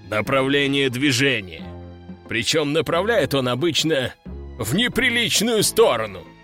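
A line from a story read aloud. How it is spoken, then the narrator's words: Chuckling general. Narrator (Russian): хохотнул генерал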